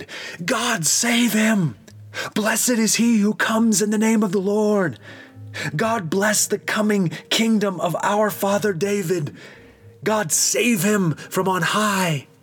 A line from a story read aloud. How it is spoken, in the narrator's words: The whole crowd, both those who were in front and those who were behind Jesus, shouted